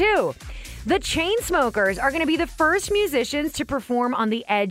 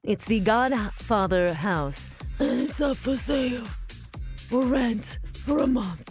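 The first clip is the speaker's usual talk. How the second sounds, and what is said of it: Godfather character impression. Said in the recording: “my best Godfather impression”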